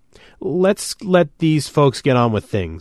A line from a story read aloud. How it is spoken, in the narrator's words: I said shakily